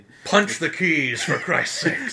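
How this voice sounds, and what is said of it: Sean Connery impression. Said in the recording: “my horrible Sean Connery impression ... I was dead on. It was like Sean Connery was in the room.”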